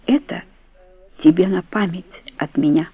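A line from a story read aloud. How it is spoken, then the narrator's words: Calm voice, agitated breathing. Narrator (Russian): сказал, взволнованно дыша, но вполне спокойным голосом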